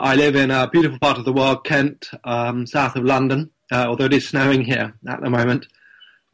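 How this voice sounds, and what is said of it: English accent. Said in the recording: “as you probably tell from my accent, um, I'm English”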